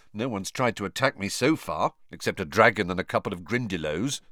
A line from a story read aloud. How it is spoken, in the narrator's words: Harry said